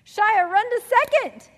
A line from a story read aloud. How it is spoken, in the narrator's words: his teammates shouted